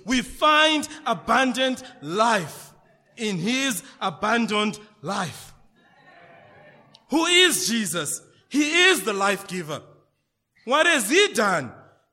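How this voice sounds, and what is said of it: Zimbabwean English accent. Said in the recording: “I'm Zimbabwean. My accent is different.”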